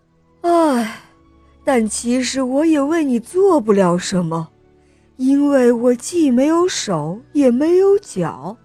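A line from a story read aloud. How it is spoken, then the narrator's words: Sighing. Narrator (Chinese): 蛇先生叹了一口气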